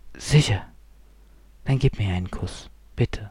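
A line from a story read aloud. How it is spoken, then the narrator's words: Whispered request. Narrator (German): forderte Martha ihn flüsternd auf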